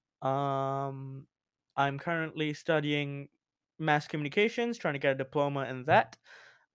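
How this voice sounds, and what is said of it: Australian-tinged English accent. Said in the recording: “I lived in Australia for 3 years, which is kind of where I got this kind of voice, kind of accent from”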